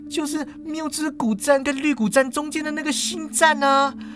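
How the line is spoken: Tearful voice. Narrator (Chinese): 叶枫就语带哭音

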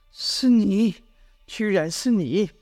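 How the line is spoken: Suppressed, restrained tone. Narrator (Chinese): 语气压抑

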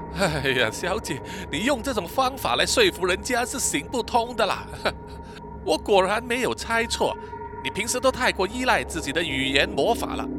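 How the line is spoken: Laughing. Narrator (Chinese): Shy 笑着说

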